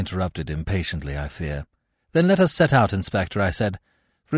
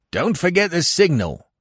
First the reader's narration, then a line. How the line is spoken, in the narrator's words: Weymouth cried after me